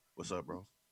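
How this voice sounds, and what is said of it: Imitates another person's voice. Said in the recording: “This is my Riley impression”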